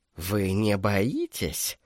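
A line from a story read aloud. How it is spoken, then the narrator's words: Whisper. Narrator (Russian): шепнул кардинал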